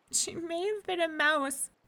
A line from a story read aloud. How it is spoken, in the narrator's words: said Miko tearfully